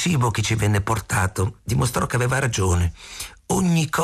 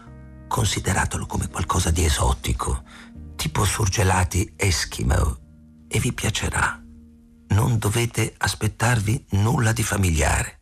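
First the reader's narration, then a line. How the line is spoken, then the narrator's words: Whispered. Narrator (Italian): Ayla si chinò verso di noi e sussurrò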